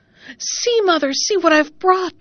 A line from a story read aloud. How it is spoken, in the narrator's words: cried she